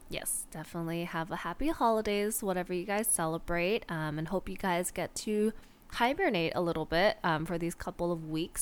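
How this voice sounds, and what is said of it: Nasal, congested voice from illness. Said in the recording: “is a little bit sick ... my voice sounds a little bit more nasally than usual”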